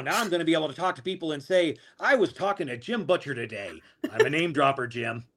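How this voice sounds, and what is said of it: Spot-on impression of Stan. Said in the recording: “good impersonation. Very spot on.”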